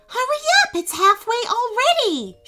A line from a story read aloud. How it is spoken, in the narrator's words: shrieked Soraya